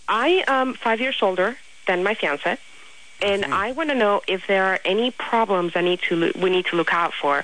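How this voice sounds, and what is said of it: Noticeable accent, not Spanish. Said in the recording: “What is your accent? Where are you from? ... This is not a Spanish accent.”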